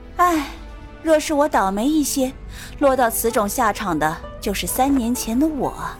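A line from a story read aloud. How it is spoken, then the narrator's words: Sighing. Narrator (Chinese): 炼魂宗宗主，他拍了拍手，叹了口气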